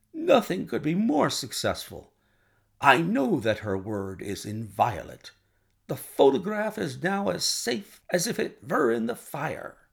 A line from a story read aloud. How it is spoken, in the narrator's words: cried the king